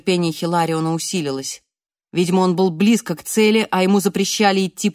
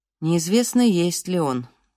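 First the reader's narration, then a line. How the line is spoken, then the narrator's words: Gloomy. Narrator (Russian): мрачно ответил отец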